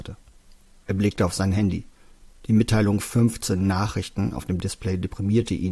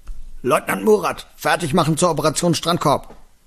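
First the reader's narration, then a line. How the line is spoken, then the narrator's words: Boy roaring back. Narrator (German): Der dunklere Junge brüllte zurück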